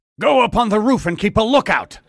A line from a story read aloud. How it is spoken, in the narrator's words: Suddenly, one of the men shouted